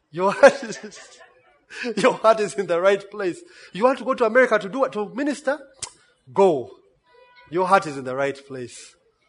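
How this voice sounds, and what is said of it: Sarcastic mock-preacher delivery. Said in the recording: “I'm being sarcastic”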